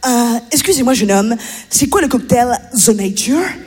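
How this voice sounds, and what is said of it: Snobbish Parisian putting on English accent. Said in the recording (French): “Alors à Paris, on met l'accent et tout, on se la pète”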